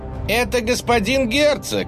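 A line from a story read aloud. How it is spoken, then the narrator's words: Shout. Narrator (Russian): крикнул он перепуганному народу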